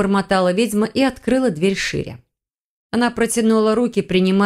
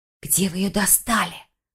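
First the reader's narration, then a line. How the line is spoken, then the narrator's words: Whispered question. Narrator (Russian): шепотом поинтересовалась Файона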